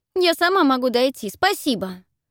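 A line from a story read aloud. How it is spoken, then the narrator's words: Indignant declaration. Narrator (Russian): С негодованием заявляет она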